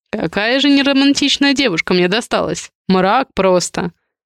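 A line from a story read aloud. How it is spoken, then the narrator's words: Chuckling. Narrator (Russian): Хохотнул Адриан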